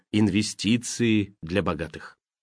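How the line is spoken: Quiet muttering to self. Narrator (Russian): тихонько твердя про себя

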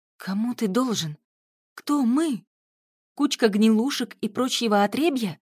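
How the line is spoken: Exasperated exclamation. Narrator (Russian): в сердцах воскликнула Юля

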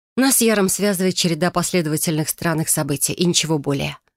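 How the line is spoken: Plain. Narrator (Russian): ответила я

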